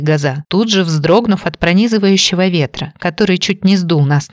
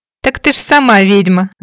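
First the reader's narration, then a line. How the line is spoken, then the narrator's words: Ringing laughter. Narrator (Russian): заливисто рассмеялась Наташка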